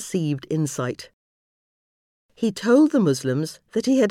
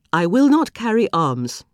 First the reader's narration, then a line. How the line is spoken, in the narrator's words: said firmly